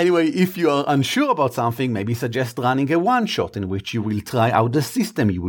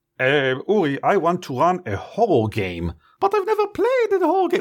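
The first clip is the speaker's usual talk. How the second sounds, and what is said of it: Imitates another person's voice. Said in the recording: “Why do I do your voice? It's you.”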